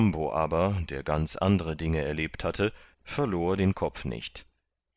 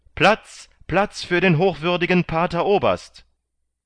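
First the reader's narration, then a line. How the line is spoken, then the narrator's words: Loud call in Spanish. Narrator (German): auf Spanisch laut rief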